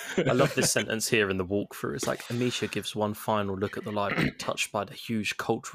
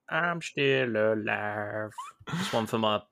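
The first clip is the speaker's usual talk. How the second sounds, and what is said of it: Imitates a rock singer's voice. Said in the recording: “Was that your Pearl Jam impression? ... It was beautiful”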